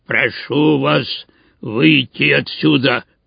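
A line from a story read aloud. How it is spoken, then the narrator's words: Hoarse wheeze. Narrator (Russian): прохрипел он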